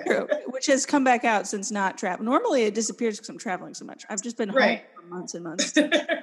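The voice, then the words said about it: Southern American accent. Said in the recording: “it's my southernness ... It's more like your accent”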